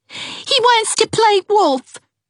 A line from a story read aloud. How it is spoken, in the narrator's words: cried, suddenly